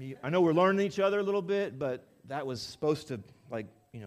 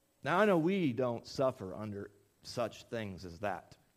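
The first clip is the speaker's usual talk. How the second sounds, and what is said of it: Sarcastic delivery. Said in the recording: “That was sarcasm.”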